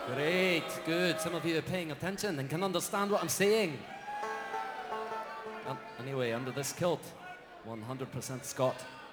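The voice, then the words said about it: Put-on Scottish accent. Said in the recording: “introduce this next number while speaking in a Scottish accent ... speaking in this accent”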